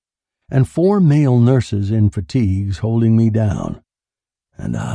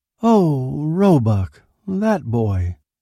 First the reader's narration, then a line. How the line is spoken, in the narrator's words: he said mournfully